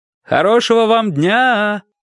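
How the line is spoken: Shouted after someone. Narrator (Russian): крикнул я вслед

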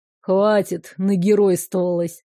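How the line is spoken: Grumbled. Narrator (Russian): пробурчал

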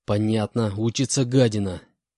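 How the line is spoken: Hissed under breath. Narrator (Russian): Прошипел себе под нос инженер

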